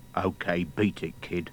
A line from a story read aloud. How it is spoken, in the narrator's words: He murmured